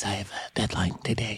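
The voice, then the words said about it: Whispering. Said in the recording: “I'm going to say this in a whisper voice.”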